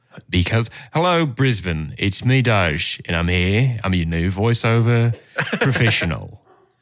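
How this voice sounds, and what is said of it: Put-on Australian accent. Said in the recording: “how talented we are at Australian voiceovers”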